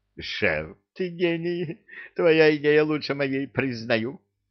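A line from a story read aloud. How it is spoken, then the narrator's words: Joyful. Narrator (Russian): Радостно сказал Люка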